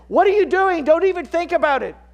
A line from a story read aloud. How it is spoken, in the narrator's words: Jake shouts out at him